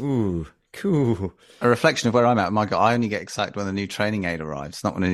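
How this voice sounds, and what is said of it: Usual voice. Nothing is said of it.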